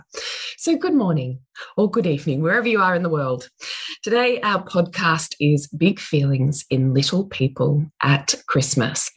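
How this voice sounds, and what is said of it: Early-morning voice, not fully there. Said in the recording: “it's early ... my voice is still not quite here”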